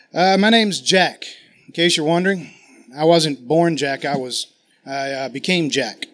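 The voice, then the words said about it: Put-on Massachusetts accent, poorly done. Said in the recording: “I have my Massachusetts accent today. And apparently my wife told me it's terrible... It's terrible, she says.”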